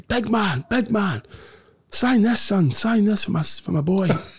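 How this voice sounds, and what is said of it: Put-on regional accent, well done. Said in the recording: “Oh, good accent.”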